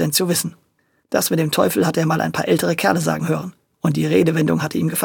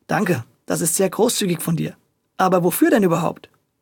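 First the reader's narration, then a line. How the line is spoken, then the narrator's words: Plain. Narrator (German): antwortete Audencio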